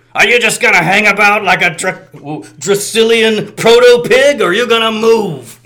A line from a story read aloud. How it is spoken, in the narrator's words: Cup again bellowing